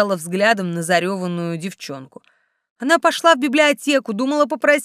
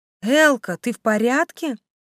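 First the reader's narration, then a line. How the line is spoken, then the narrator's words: Soft ingratiating question. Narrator (Russian): поинтересовалась вкрадчиво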